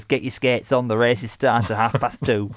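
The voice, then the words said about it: Poor Dennis Skinner impression. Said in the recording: “sorry to Dennis Skinner for that horrendous impression.”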